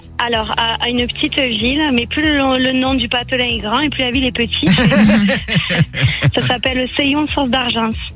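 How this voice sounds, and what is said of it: Regional accent from the Var. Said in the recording (French): “J'adore votre accent. Vous êtes dans le Var”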